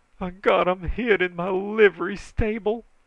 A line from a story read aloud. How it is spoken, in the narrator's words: he moaned